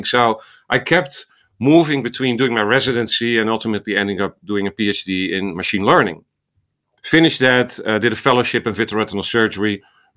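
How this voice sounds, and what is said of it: Dutch accent. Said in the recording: “This was in the Netherlands, as you hear from my accent, in Amsterdam.”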